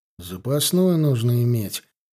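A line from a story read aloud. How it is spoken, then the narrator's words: Grumbling. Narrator (Russian): проворчал Гончаров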